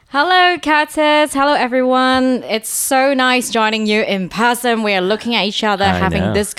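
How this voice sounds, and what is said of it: Usual voice. Nothing is said of it.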